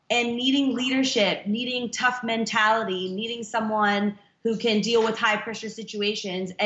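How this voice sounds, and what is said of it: American Los Angeles accent. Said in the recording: “you can hear from my accent that I was born and raised in Los Angeles”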